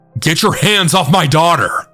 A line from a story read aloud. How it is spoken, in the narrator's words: a loud, deep voice then yell